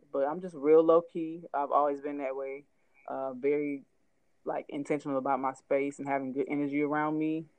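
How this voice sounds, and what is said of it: Speaks with a slight twang. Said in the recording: “I got a little bit of a twang in my talk... but I do have a dialect”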